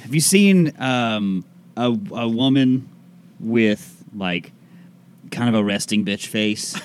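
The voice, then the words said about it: Mixed put-on accent, Boston-ish. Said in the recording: “Accent turning into? ... half New Orleans, half Jamaican, half whatever this is ... some Boston in there ... it's getting a little Boston-y”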